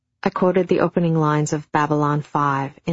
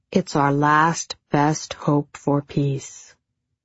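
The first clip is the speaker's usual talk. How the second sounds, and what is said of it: Deep science fiction narrator voice. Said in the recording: “in a deep science fiction narrator voice.”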